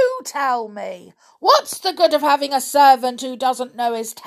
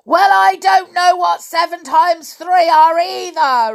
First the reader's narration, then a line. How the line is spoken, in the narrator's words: roared the giant